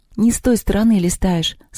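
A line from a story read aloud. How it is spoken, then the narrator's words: Tearful. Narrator (Russian): сказала Маша сквозь слезы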